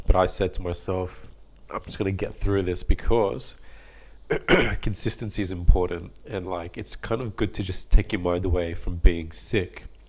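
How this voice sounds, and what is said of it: Low, congested sick voice. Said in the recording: “I'm also sick, so either my voice is lower than what it normally is, which is already quite low, and my nose is blocked”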